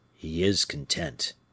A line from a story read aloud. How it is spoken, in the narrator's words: said the falconer in a low voice to the musketeer